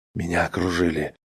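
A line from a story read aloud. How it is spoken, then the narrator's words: Low voice. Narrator (Russian): сообщил тот вполголоса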